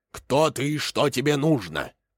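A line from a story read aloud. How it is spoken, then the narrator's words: Loud roaring bark. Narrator (Russian): лев рявкнул громко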